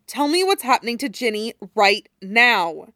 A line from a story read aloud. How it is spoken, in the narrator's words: Harry said more firmly